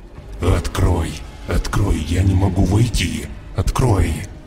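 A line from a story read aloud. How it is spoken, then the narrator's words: Eerie guttural hellish voice. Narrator (Russian): жутким утробным голосом, как будто из самой преисподней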